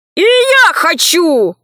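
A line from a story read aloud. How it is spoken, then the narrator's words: Shouting. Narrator (Russian): закричал Валера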